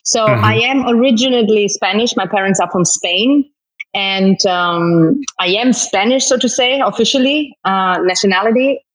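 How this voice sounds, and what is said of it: German-accented English. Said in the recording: “I don't have a Spanish accent ... that's why I have a German accent”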